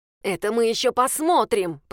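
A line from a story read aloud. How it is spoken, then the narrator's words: Hissing. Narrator (Russian): прошипела Софья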